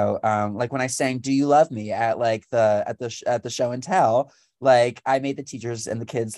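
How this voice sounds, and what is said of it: Usual voice. Nothing is said of it.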